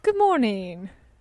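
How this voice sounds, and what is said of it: Put-on British accent. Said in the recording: “This is me doing a British accent. ... You sound like a Spice Girl.”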